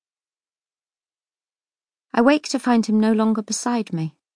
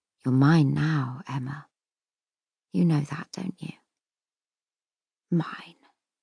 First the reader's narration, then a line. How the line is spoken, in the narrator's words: I hear him murmur